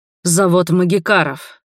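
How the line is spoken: Growl. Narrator (Russian): прорычал

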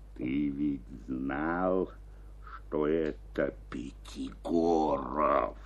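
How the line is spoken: Hoarse undertone. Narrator (Russian): Хрипел через минуту Евстрат Спиридонович вполголоса

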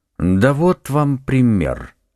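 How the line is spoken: Plain. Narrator (Russian): ответил Ришелье

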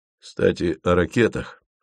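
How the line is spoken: Low voice into ear. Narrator (Russian): вполголоса сказал Фомин на ухо Диме

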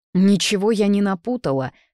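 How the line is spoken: Witch snapping back. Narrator (Russian): огрызнулась верховная ведьма

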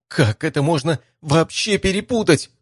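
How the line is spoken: Emotional outcry. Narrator (Russian): уже не сдерживая эмоций, вскрикнула девушка

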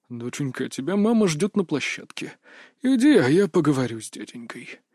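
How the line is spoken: Quiet male voice. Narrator (Russian): тихо произнес мужчина

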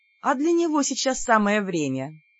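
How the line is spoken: Soft purr. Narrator (Russian): негромко промурлыкала я

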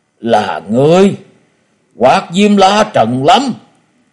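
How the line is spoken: Astonished, in unison. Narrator (Vietnamese): Tứ Độc Thư Sinh đồng loạt kêu lên mấy tiếng kinh ngạc, đồng thanh nói

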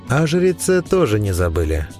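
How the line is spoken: Sighing admission. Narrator (Russian): Вздохнув, признал жихарь

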